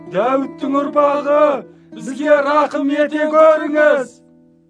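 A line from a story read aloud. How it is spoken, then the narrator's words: Shouted pleading. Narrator (Kazakh): деп айқайлап жалбарынды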